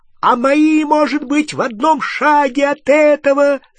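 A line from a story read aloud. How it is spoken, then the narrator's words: Shriek. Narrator (Russian): завизжал Рон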